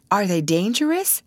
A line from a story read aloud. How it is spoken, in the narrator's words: asked Miss Dixon